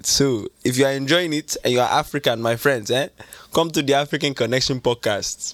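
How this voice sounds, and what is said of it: Put-on Nigerian accent. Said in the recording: “He's a Nigerian character that I created... for the rest of it, I'm going to do it in this accent.”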